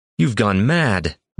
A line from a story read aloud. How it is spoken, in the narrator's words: Roshan called out, rising unsteadily